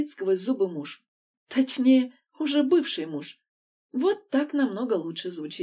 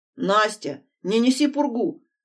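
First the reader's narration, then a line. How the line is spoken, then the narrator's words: Irritated blurting. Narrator (Russian): раздраженно выпаливает Дима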